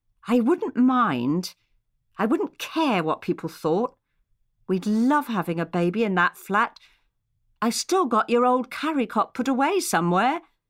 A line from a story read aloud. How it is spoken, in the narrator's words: she said, hesitantly and quietly, just for the two of them to hear